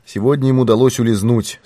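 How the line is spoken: Calm reply. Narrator (Russian): спокойно ответил Пинкертон

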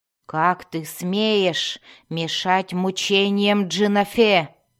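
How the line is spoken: Growl. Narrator (Russian): прорычала Йоклол

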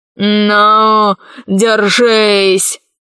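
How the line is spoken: Growl. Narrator (Russian): зарычал император

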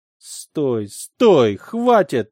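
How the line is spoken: Exhausted moaning. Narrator (Russian): простонала она, едва не падая

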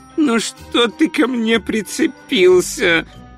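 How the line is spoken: Groaning. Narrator (Russian): простонал он

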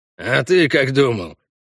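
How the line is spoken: Pleased snort. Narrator (Russian): довольно хмыкнул Хальгдав

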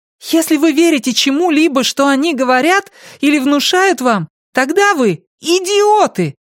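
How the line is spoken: Exclamation. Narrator (Russian): воскликнула Алиса

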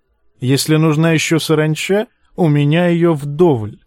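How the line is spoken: Plain. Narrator (Russian): сказал лысый

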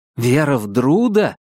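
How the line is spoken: Exclaiming. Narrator (Russian): воскликнул я

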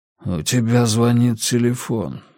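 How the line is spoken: Hoarse. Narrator (Russian): хрипло сказал Рекс

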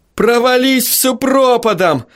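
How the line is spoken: Full-force, furious yell. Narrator (Russian): заорал он, что было сил, в бессильной ярости

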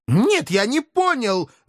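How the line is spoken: Indignant howl. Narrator (Russian): возмущенно взвыл славный потомок рода Эльгенхауэр

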